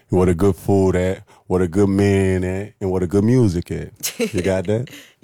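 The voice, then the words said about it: Louisiana accent. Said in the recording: “Where are you from, your accent? ... I'm from Louisiana.”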